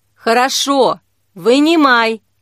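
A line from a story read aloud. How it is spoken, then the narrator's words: Loud shout. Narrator (Russian): Кира крикнула, чтобы не слышать звука его падения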